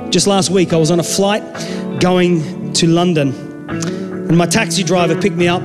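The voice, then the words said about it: Australian accent. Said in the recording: “my accent's Australian”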